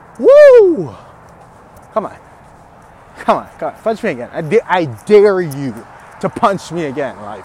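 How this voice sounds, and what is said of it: Angry, agitated voice. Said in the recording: “I don't know if you can hear it in my voice. Oh, I'm mad. I'm mad.”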